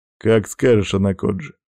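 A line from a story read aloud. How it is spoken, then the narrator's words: Snorting grunt. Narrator (Russian): хмыкнул худой вепрь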